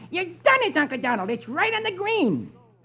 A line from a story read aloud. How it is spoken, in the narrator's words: Huey exclaims